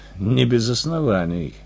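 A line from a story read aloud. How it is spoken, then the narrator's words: Wry snort. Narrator (Russian): хмыкнул я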